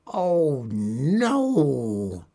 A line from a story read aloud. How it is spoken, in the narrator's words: moaned